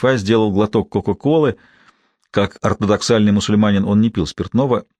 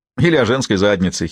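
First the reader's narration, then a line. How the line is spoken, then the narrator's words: Giggling. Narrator (Russian): хихикнул Хусни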